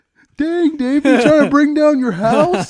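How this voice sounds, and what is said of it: Imitates another person's voice. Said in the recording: “great Bruce impression... That was terrible.”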